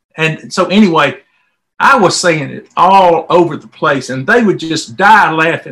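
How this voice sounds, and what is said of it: Southern American accent. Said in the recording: “I have a southern accent”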